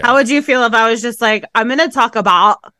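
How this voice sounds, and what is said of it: Poor put-on Canadian accent. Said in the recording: “Why is your accent so shitty? ... Canadian. What I think Canadians sound like.”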